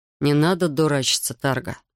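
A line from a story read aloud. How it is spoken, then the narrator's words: Sighing. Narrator (Russian): вздохнул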